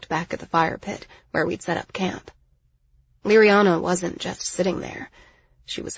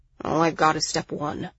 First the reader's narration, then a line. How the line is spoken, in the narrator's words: Miles sighed